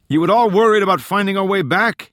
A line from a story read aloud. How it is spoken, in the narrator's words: Tallon yelled